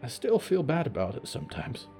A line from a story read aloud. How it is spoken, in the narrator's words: Buck whispered